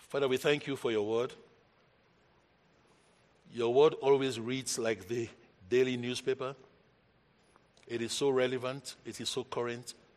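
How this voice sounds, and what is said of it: African accent. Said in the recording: “my African accent”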